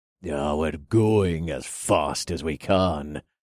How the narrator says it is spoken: the dark-haired one grumbled

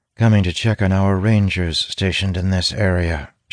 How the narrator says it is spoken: she replies coolly

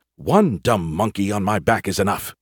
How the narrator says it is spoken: he muttered

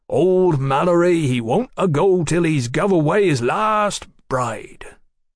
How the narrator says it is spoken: Mallory quoted in his broadest Sussex drawl

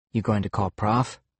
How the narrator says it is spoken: I asked softly

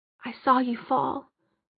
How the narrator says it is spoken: Alec said quietly

